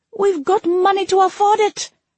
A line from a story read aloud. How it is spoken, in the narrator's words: I spat at him